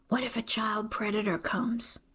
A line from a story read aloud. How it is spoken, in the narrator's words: She whispers